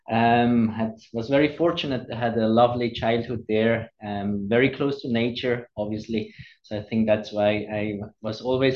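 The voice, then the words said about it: Swiss accent. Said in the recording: “clearly from your accent, we can hear that you are Swiss or were originally from Switzerland”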